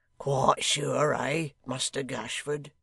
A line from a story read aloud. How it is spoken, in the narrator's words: chuckled the hangman